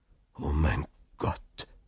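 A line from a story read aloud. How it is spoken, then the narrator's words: Murmured. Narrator (German): murmelte er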